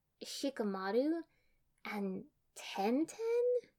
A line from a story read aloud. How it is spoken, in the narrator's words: Sakura asked slowly, hesitantly